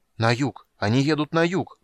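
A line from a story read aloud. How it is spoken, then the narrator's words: Excited crowd clamor. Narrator (Russian): взволнованно загомонили вокруг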